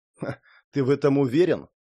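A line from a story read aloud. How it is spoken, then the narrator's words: Snorted. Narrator (Russian): хмыкнул Шон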